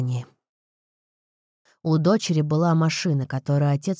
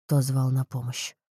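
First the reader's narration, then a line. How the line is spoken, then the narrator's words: Hoarse question. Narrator (Russian): хрипло спросил Рэй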